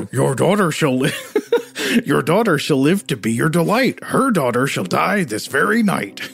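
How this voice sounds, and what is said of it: Scooby-Doo dog voice. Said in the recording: “do a dog voice ... You know how to do a dog voice. ... Do I do a Scooby-Doo voice here?”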